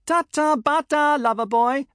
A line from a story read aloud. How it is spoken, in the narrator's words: they yelled